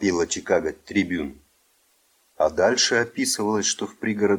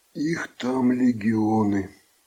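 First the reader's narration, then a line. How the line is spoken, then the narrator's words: Muffled voice. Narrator (Russian): глухо сказал Теобальдо Грека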